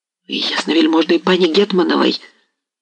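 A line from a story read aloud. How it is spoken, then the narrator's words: Trembling voice. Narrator (Russian): начал было он дрожащим голосом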